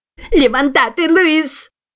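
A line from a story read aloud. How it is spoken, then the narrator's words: Distant shriek. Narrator (Russian): визжала сеньора от двери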